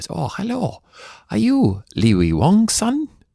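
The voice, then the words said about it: Put-on Asian accent. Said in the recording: “I'm trying to be my best Asian accent”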